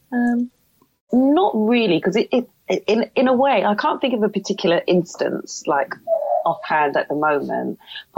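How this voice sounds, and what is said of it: Pleasant London accent. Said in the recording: “we moved to London, and that's where my accent comes from ... Well, it's a lovely accent. ... Yes, very pretty.”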